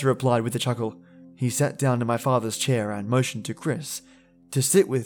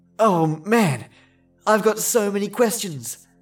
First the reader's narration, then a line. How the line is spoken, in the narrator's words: Chris exclaimed